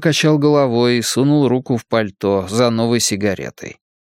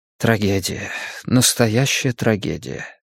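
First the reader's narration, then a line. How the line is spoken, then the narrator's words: Quiet. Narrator (Russian): тихо произнес Риттер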